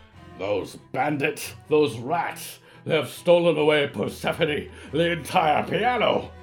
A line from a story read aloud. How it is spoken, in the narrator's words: he roared